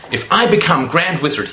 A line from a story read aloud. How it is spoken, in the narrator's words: he said